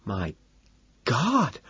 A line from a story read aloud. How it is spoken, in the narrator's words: Evelyn gasps